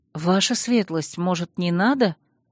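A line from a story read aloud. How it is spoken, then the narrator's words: Timid question. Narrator (Russian): робко спросила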